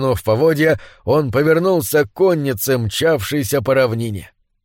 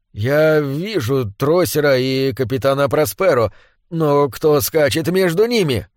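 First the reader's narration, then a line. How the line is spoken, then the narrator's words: Bewildered speech. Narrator (Russian): Амальрус растерянно проговорил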